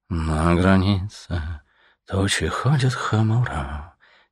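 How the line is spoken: Soft singing under breath. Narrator (Russian): тихонько запел себе под нос свинолуп

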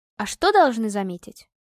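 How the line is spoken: Slightly annoyed question. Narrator (Russian): уже немного недовольным голосом переспросила Настя

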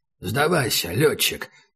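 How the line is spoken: Hoarse. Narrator (Russian): сказал Убер хрипло

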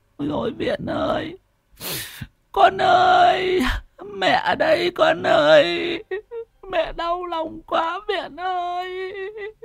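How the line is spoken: Sobbing, grief-stricken. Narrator (Vietnamese): mếu máo

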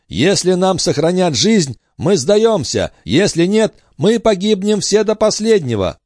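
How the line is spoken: Shout. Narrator (Russian): Один из них закричал

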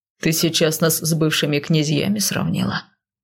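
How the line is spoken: Overly calm question. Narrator (Russian): Слишком спокойно уточнил Риган

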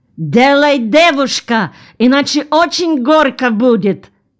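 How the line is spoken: Nearly shouting. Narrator (Russian): почти закричал

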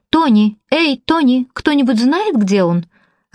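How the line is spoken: Irritated shout. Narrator (Russian): раздраженно крикнула кассирша

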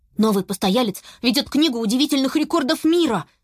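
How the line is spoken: Rapid chatter. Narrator (Russian): затараторил Беня

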